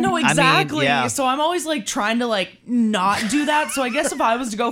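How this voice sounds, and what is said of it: Usual voice. Nothing is said of it.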